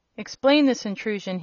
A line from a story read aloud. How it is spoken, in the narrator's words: he cried